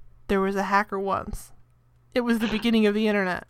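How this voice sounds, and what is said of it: Flat deadpan delivery. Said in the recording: “this is my Patricia Arquette. I'm going to be as deadpan as possible.”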